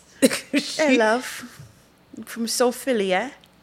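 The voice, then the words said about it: Put-on accent. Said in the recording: “If you put on that fucking accent”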